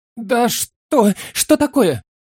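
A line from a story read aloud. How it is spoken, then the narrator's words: Fearful respectful babbling. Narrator (Russian): Залепетал хозяин, почтительно и со страхом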